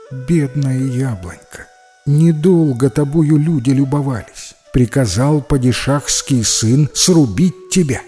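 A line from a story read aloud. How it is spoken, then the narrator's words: Sad. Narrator (Russian): говорить грустно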